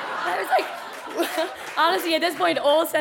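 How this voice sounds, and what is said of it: Usual voice. Nothing is said of it.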